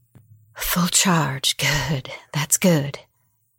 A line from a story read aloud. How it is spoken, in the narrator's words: muttered